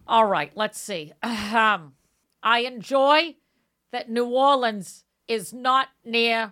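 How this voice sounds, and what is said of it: Usual voice. Nothing is said of it.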